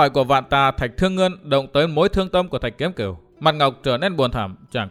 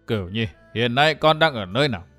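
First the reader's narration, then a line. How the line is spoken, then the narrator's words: Low steady voice. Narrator (Vietnamese): Vạn Tà Thạch Thương Ngân bằng một giọng trầm đều hỏi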